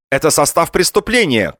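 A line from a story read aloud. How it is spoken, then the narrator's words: Trainees shouting together. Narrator (Russian): кричали практиканты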